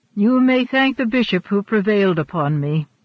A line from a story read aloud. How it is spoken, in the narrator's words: said Richelieu dryly